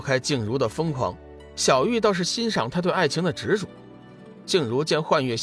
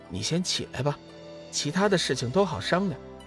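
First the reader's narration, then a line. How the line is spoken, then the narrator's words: Soft reluctant sigh. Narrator (Chinese): 小玉似乎有点不忍，微微叹息一声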